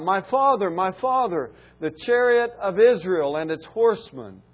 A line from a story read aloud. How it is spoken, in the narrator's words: Elisha saw it and cried out